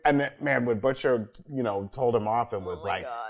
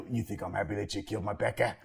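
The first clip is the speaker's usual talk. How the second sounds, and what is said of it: Impression of Butcher. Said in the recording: “You have to do that impression more... Oh, his voice is great. I love it.”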